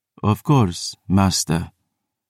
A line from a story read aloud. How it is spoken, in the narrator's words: Dario breathed